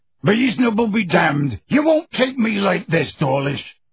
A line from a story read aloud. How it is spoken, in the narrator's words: Hagrid roared